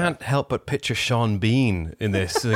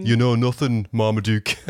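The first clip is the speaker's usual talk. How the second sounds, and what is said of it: Sean Bean impression, Sheffield accent. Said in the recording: “Sean Bean ... Nailed the accent. ... Was that a Sheffield accent? ... That was really on point for the time.”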